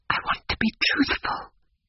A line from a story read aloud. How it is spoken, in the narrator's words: whispered